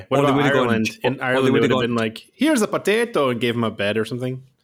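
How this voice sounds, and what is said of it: Bad put-on Irish accent. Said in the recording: “A terrible accent.”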